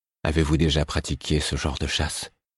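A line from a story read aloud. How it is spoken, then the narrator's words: Whispering. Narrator (French): fis-je dans un murmure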